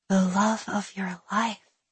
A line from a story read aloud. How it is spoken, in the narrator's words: Willa repeated in a whisper of amazement